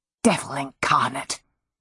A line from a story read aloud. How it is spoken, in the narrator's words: Petra muttered, suddenly short of breath